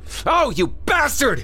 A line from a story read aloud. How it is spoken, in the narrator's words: Craig screamed